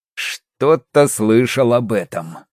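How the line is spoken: Tired, smiling. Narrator (Russian): устало улыбнулся шмель

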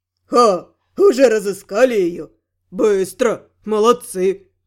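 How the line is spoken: Pleased snort. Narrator (Russian): Довольно хмыкнул посланник

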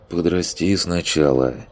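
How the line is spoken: Grumbled. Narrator (Russian): буркнул

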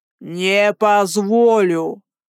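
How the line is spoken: Growl. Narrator (Russian): прорычал он

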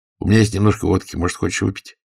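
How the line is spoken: Plain. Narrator (Russian): спросил редактор

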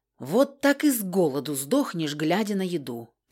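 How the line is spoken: Muttering. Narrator (Russian): пробурчала

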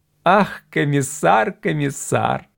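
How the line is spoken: Loud laughter. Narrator (Russian): Хартон захохотал

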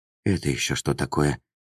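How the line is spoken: Astonished whisper. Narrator (Russian): изумленно прошептала Таала

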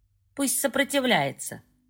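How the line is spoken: Wry grunt. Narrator (Russian): хмыкнул первый

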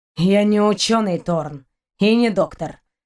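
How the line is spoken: Gloomy reply. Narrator (Russian): мрачно отозвался Шейн

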